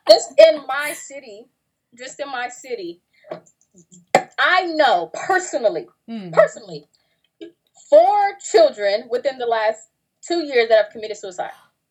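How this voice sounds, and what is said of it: Country American accent. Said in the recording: “I'm from the country. ... she sounds so country.”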